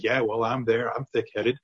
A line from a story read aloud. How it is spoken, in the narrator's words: we can laugh and joke, and we can say